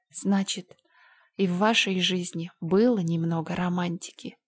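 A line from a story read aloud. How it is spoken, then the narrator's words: Quiet. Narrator (Russian): тихо сказала Энн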